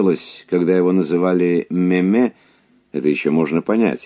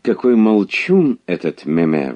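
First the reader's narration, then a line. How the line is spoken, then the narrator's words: Exclamation. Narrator (Russian): воскликнула герцогиня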